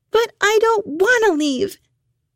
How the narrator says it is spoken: Hannah screamed

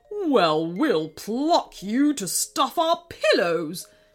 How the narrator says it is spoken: sneered King Krusty in reply

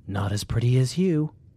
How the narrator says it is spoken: Brian whispered

